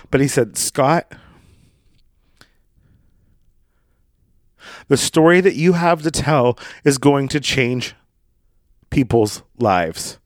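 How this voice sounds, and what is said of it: Emotional, voice choking up. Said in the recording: “I'm going to start to get emotional right now.”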